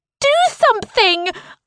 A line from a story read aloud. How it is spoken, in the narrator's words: I scream